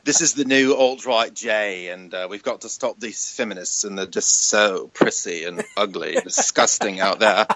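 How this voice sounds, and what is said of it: Camp put-on British accent. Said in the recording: “I'm going to have a gay British accent ... See, if I could do that.”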